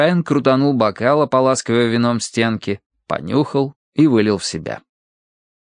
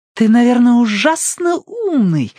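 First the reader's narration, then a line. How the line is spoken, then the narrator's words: Fervent exclamation. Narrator (Russian): воскликнула Джулия с таким жаром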